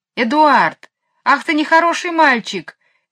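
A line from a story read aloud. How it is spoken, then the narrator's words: Shout. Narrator (Russian): крикнула Джейн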